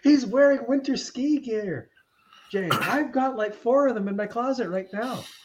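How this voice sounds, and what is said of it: Canadian accent. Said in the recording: “I love the Canadian accent.”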